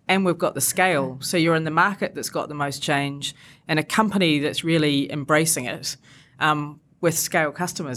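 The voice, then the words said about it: Non-British accent. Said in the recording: “evidently from my accent, I wasn't brought up here”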